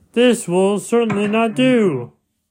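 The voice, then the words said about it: Impression of Alastor. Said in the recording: “that's my best impersonation of Alastair. I didn't remember that his voice, he had like a radio kind of, and like a staticky kind of sound ... I can't do his voice with the little static sound, but I tried”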